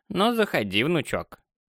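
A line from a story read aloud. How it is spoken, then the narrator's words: Creaky old voice. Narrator (Russian): Проскрипел старческий голос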